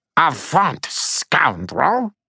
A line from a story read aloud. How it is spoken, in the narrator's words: he piped at the she-warrior